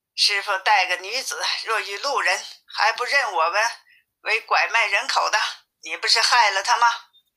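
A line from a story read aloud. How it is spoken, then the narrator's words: Cold sneering laugh. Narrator (Chinese): 悟空冷笑着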